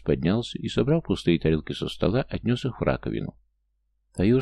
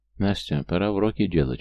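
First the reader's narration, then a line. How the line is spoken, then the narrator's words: Tired. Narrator (Russian): устало проговорил Таюрских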